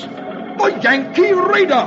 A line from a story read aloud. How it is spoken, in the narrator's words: the English sea captain recognizes John Paul Jones's famous ship and exclaims